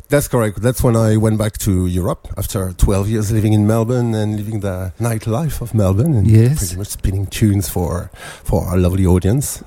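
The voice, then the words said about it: French accent. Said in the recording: “your beautiful French accent”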